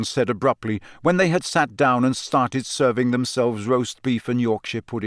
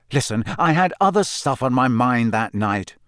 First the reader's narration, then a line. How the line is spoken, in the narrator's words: said Harry impatiently